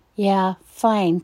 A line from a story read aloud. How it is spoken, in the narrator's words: said Noah